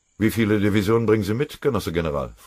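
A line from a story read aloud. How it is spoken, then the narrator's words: Cold question. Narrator (German): fragte Nikita Khrushchev kalt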